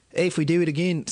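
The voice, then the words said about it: Attempted nasal Australian accent. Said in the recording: “see, that's Australian. Australian's nasally is what I'm realizing... I can't fucking do it”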